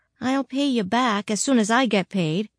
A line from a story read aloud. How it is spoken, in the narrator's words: she sighed